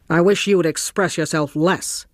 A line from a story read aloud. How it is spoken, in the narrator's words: said Osmond sharply